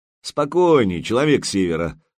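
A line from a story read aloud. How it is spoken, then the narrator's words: Mocking. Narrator (Russian): насмешливо произнес Артем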